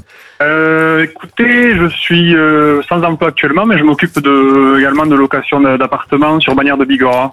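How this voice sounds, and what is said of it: Slight Pyrenean French accent. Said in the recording (French): “un petit accent des Pyrénées”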